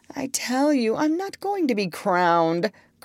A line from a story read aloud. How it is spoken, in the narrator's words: cried the doctor